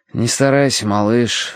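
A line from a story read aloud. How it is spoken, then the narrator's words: Sigh. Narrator (Russian): вздохнул я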